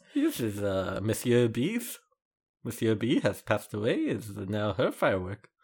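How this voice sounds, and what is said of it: Put-on French Parisian accent. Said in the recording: “It's the Parisian way. I speak with this accent”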